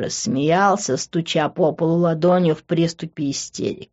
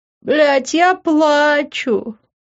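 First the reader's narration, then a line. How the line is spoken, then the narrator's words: Groan. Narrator (Russian): простонал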